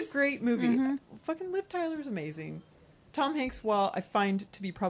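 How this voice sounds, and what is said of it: Usual voice. Nothing is said of it.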